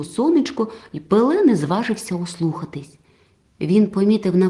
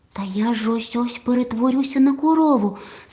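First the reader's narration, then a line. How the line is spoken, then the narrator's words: Startled cry. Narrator (Ukrainian): скрикнув Пиле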